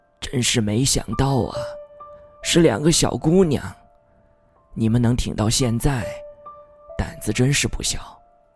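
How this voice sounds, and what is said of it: Hoarse old man's voice. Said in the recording (Chinese): “是个年过半百、面容狰狞的老头...嘶哑的声音说”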